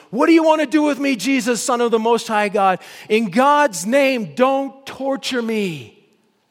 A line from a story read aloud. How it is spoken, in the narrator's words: He shouted at the top of his voice